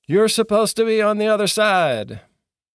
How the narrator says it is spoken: yelled

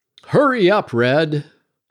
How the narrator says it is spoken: yell

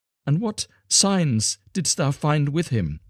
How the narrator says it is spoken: she cried

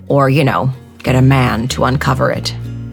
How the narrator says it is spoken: added, slightly scornfully

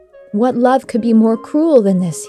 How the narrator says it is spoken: cried

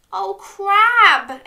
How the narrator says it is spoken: exclaimed Dog

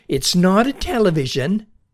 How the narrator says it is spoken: her mother would shout at her

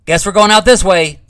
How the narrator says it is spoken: Huff shouted

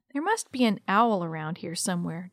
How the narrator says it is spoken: Don said

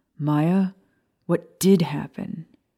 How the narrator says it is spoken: Sirius groaned when Maya adjusted him in her arms

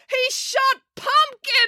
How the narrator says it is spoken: wailed April

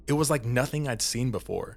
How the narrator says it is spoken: exclaimed with wonder

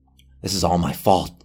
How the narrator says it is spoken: Johnny said

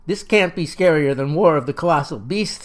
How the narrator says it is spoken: says Dees

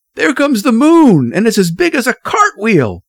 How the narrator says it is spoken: someone cried

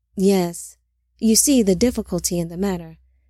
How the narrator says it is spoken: Zillah said calmly

